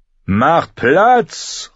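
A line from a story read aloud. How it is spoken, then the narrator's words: Distant call from street. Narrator (German): rief jemand aus der Querstraße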